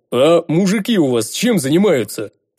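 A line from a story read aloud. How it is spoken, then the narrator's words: Booming big man. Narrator (Russian): прогудел здоровяк из-за моей спины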